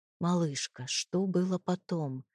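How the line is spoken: Quiet question. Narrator (Russian): спросил я тихо

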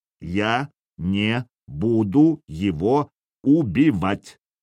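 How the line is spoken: Clipped, measured words. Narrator (Russian): отчеканил Сергей

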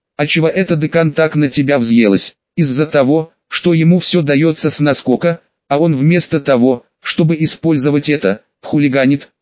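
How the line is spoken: Plain. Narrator (Russian): ответил Люпин

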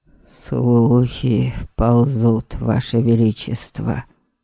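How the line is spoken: Forced out. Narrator (Russian): Выдавил адмирал

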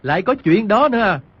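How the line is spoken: Doubtful, incredulous. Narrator (Vietnamese): Quách Tĩnh không biết nàng châm chọc, không tin, bèn nói

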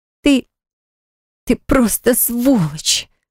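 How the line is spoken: Moaning. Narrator (Russian): простонала Милана

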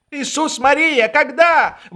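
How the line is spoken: Exclaiming. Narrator (Russian): воскликнул Швейк

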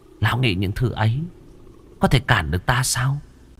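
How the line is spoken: Smiling contemptuous tone. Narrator (Vietnamese): chỉ khẽ mỉm cười, ánh mắt khinh khỉnh

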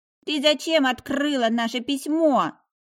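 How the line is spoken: Indignant, foot-stamping. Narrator (Russian): возмущенно топнул ножкой мой мужчинка

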